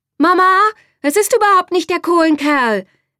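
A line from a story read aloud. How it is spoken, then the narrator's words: Call from below. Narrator (German): rief Bärbel von unten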